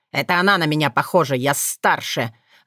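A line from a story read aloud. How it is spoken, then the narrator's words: Spiteful. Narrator (Russian): злобно выдал Сшайр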